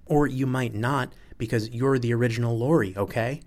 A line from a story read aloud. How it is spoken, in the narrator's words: almost shouts it